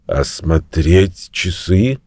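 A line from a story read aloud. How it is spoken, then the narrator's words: Sleepy question. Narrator (Russian): спросил он, сонно озираясь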